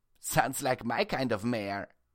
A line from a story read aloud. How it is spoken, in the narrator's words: Precious chuckled